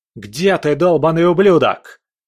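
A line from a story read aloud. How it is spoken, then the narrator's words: Booming, echoing voice. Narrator (Russian): прогремел голос Вавилонского, эхом разносившийся по залам банка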